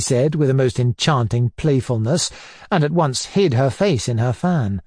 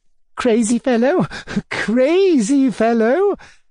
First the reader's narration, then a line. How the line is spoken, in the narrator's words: repeated Tatyana Ivanovna